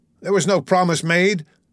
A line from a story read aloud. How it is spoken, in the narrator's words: he cried into the empty spaces that lay about him